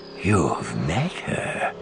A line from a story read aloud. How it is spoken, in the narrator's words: he breathed